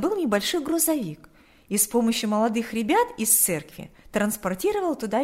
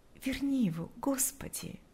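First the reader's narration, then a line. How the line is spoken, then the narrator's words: Whispered prayer. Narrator (Russian): шептала она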